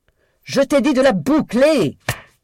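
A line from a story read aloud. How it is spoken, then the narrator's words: Yelled. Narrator (French): hurla Daisy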